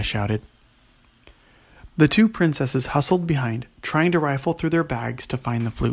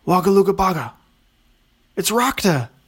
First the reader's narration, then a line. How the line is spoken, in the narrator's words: yelled Aria